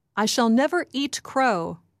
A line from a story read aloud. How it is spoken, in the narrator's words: Morrowbie is full of pride as he yells